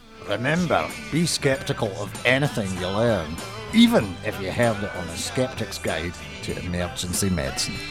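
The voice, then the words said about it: Put-on Scottish accent. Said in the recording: “Can you do it with a really good Scottish accent?”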